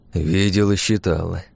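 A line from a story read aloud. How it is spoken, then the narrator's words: Grumbled. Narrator (Russian): буркнул Багратион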